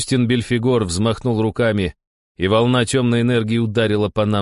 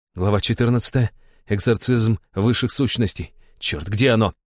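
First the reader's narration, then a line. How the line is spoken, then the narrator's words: Muttering. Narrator (Russian): бормотал я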